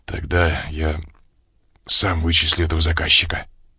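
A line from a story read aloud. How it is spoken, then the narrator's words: Sudden hoarse voice. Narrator (Russian): внезапно хрипшим голосом заявил я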